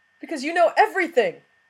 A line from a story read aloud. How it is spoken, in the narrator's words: Watson cried